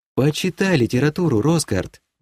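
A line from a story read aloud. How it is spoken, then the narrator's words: Baroness sighing. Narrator (Russian): вздохнула баронесса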